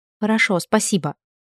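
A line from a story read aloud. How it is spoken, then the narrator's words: Mumbling, head down. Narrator (Russian): опустив голову пробормотала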